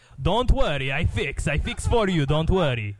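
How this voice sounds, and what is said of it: Loud, peaky put-on Greek accent. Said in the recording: “Your impression of a Greek man involves you pulling the microphone into your throat. ... he has no volume control. ... It's so peaky. ... sounds like Borat.”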